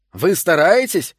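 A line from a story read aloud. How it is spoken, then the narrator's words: Shouting. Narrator (Russian): закричал Морт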